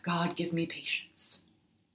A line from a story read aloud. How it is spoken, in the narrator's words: at the peak of my exasperating toddler behavior, my mom would often sigh and say